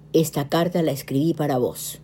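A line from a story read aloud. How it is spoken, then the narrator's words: Plain. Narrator (Spanish): dijo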